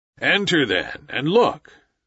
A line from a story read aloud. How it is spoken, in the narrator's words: said Father Wolf, stiffly